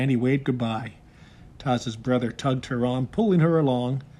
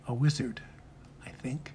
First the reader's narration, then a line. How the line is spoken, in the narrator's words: answering softly